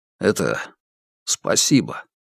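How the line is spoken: Sudden mumble. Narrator (Russian): братец Хук внезапно пробормотал

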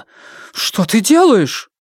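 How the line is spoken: Exclamation. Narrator (Russian): сестра Джао воскликнула

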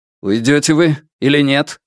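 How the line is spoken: Young man's sharp, clipped question. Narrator (Russian): спросил юноша резким, отрывистым тоном

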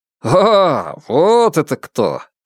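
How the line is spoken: Warm, laughing voice. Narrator (Russian): Тайвэй рассмеялся, его голос потеплел

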